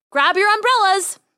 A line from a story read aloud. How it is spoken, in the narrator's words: Dolores called out